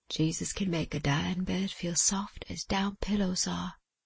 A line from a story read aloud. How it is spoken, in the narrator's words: smiled, and said